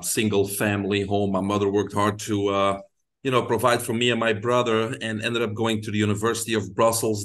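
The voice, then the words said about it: Belgian accent. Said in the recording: “I grew up in Belgium. People can hear my accent, so that's where it's from.”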